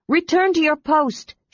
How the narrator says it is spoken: she shouted

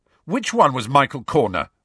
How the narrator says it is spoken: Ron demanded furiously

